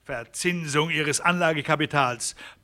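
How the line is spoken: Angry outburst. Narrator (German): platzte Herron wütend heraus

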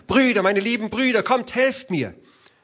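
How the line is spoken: Desperate scream. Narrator (German): Da schrie sie noch einmal

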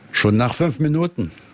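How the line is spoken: Plain. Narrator (German): sagte

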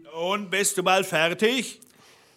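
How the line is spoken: Calling up from below. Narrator (German): rief der Blaubart unten

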